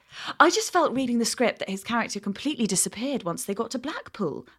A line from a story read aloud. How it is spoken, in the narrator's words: continued smoothly